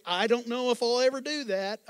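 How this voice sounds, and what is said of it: Put-on Southern redneck twang. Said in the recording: “little twang, a little redneck in there”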